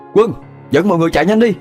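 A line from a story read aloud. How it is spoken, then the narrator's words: Hurried loud shout. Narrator (Vietnamese): Khải vội hét lớn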